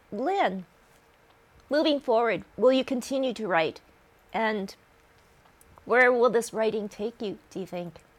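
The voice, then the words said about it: Emotional voice, cracking. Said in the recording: “a little emotional here. So I guess, now my voice is cracking.”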